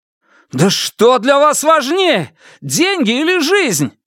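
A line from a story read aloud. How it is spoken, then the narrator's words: Roared. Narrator (Russian): взревел Фанму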